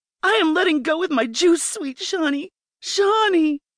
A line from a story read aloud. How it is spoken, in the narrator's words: I yelled, feeling my body about to explode